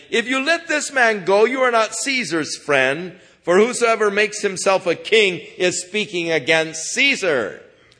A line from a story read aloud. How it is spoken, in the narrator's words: the Jews cried out, saying